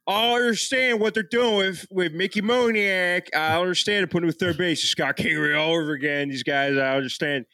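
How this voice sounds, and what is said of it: Exaggerated slurred Philadelphia accent. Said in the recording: “the Philadelphia accent. It just devolves into just random vowels. Slurs. ... it's vowels, and then every so often you you kind of stop what you're saying, and that's a consonant ... worst fucking accent in the world”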